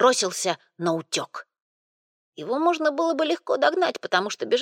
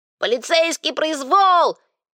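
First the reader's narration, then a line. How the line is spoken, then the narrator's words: Shout. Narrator (Russian): он крикнул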